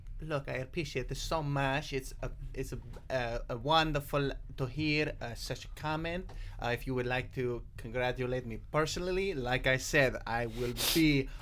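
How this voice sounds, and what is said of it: Put-on Italian accent. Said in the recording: “Italian ... your Italian accent ... perform that accent”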